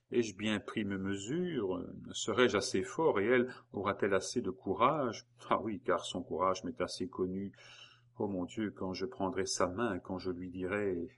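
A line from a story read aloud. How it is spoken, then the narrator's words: Murmured. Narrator (French): murmura-t-il en s'arrêtant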